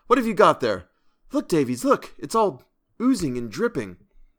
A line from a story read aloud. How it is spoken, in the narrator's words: he cried